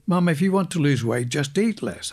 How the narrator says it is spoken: I'd yell

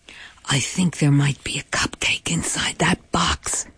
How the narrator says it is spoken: Bob whispers to me

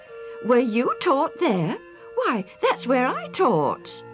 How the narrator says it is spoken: The older man exclaimed

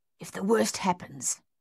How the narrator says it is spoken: Thaddeus hissed at Dave

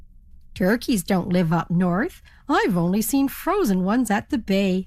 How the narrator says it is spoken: laughed the ferry captain

